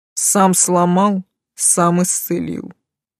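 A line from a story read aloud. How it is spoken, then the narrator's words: Spat through teeth. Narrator (Russian): сквозь зубы выплюнул Тейт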